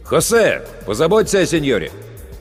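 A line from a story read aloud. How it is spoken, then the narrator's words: Shout. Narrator (Russian): крикнул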